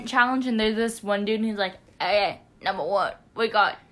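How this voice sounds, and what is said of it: Put-on New York accent. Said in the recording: “New York accent challenge”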